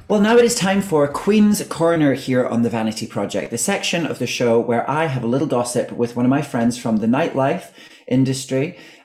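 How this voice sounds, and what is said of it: Scottish accent. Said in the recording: “I'm going to see if my accent becomes less Scottish ... you two gassing away in your Highland tones”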